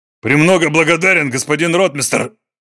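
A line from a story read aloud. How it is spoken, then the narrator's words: Bark. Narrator (Russian): рявкнул Зев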